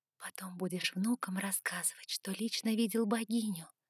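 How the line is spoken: Whispered. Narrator (Russian): шепнула я Сумраку

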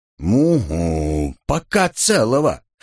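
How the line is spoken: Grumbling. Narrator (Russian): проворчала Элли

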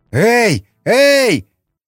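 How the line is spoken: Yelled. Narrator (Russian): заорал Николай

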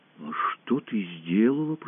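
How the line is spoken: Whispered. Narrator (Russian): прошептал Аркаша

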